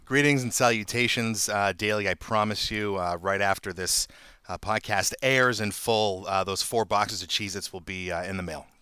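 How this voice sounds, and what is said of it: Boston accent. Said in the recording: “the best Boston accent, this side of the Mississippi”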